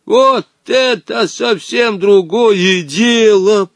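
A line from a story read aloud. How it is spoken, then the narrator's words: Wheezed. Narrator (Russian): прохрипел Женя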